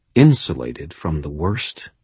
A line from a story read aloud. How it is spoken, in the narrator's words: He asked in a quiet, dangerous voice